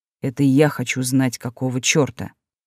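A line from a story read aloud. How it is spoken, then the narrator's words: Deceptively calm tone. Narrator (Russian): обманчиво спокойным тоном произнес Олдер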